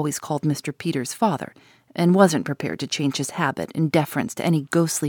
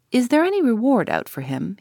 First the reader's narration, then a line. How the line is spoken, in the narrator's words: asked eagerly